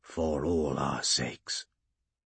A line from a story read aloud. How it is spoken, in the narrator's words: he said quietly